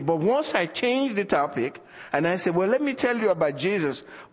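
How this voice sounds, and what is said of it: African accent. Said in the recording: “They want to talk about Africa when they hear the accent.”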